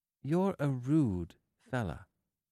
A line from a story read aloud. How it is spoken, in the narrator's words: said slowly